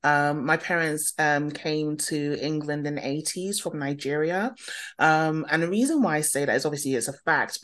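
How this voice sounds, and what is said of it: London English accent. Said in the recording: “you can probably hear from my accent, born and bred in London”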